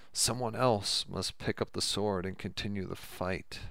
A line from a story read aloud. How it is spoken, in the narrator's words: Eric replied sadly